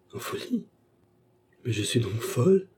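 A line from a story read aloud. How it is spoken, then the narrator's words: Cried out. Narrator (French): s'écria Baccarat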